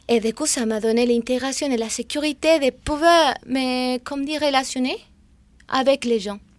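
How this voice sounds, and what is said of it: Non-native French accent. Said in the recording (French): “j'avais un peu la honte de parler parce que mon accent, parce que j'avais peur de ne pas dire les mots correctement.”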